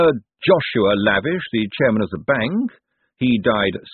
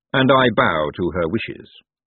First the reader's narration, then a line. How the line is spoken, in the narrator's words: said Lord Vetinari smoothly